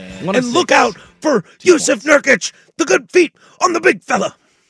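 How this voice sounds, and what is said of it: Imitates a basketball commentator's voice. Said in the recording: “that's my Rafferty... that's my Rafferty impression, but he's college basketball”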